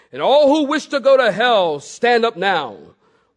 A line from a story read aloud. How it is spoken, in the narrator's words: at the top of his voice, he bellowed